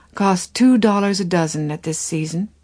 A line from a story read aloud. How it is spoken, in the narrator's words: she said calmly